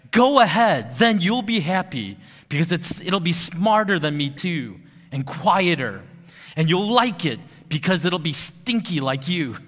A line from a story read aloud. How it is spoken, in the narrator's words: Lilo screams back